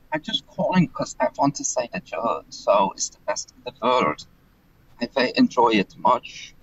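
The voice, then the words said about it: Authentic Dutch-sounding accent. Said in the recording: “I don't think he's putting on this accent, by the way... No, I think that's authentic... He's from the Netherlands, isn't he?... Sounds like it.”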